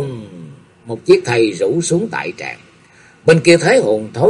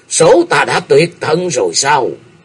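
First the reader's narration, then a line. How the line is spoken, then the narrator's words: Shouted. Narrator (Vietnamese): Độc Thánh Lương Kỳ hét lên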